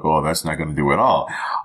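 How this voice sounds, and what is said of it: Mock bougie doorman voice. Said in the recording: “Is that how white people sound? ... what was that impression of? ... The doorman at the Ritz Hotel. ... Bougie people.”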